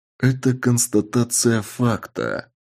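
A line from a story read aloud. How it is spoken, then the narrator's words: Grave-cold chilling voice. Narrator (Russian): Сказал я настолько за могильным холодным голосом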